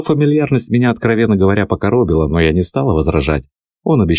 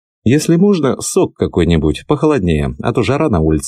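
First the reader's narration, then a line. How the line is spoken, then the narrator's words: Plain. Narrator (Russian): ответила я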